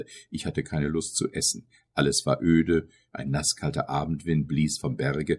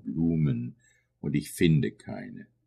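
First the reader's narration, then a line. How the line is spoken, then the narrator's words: Answer with deep sigh. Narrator (German): antwortete er mit einem tiefen Seufzer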